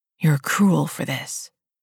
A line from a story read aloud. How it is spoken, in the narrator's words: he whispered